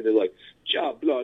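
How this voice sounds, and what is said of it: Mock English-Jamaican slang accent. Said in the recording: “this English and like Jamaican accent ... with an English accent at the same time”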